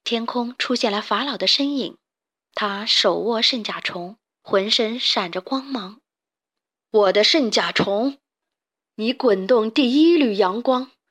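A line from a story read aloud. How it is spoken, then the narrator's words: Amazed exclamation. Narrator (Chinese): 贝里奥惊叹道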